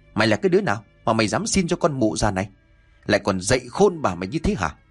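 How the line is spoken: Loud angry shout. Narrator (Vietnamese): Chị ta liền quát lớn

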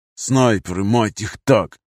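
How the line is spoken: Hissing. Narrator (Russian): Прошипел Нардин

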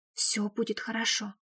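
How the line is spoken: Whispered reply. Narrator (Russian): шепотом ответила

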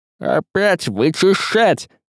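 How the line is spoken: Grumbling. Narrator (Russian): ворчал Баламут

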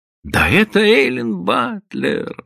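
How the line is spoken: Woman exclaiming. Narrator (Russian): воскликнула она

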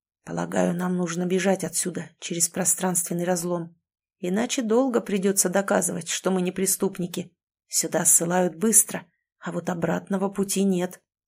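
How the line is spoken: Barely audible whisper. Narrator (Russian): перейдя на еле слышный шепот, добавил

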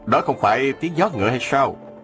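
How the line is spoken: Smiling. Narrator (Vietnamese): Ông mỉm cười nói

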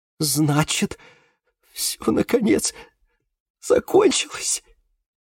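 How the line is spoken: Convulsive sob. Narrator (Russian): судорожно всхлипнула она

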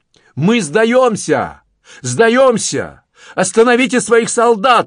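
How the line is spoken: Yelling. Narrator (Russian): орал он

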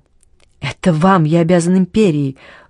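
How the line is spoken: Agitated, emotional speech. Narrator (Russian): взволнованно произнес Карл

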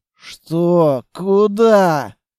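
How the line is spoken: Confused mumble. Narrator (Russian): Промямлил я, совершенно не понимая, что случилось и что от меня хотят

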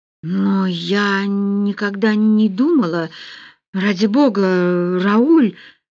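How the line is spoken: Shocked stammering mumble. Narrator (Russian): Заикаясь от шока, пробормотала Полли

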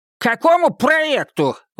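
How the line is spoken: Fat man shouting out. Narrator (Russian): выкрикнул толстяк из первых рядов

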